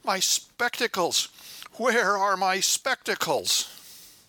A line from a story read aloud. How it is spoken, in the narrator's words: his face flushed with apparent irritation, and he exclaimed fretfully